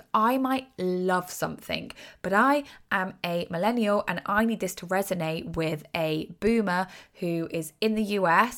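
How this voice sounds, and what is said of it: British accent. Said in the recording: “I'm British, obviously, from my accent.”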